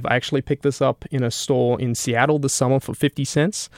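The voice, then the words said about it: Australian accent. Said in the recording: “If you couldn't tell by my accent, I'm not originally from around these parts... all the way down in Australia.”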